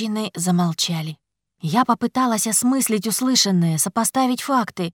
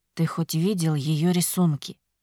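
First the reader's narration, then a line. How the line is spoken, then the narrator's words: Quiet question. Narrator (Russian): тихо спросил Илар Храмс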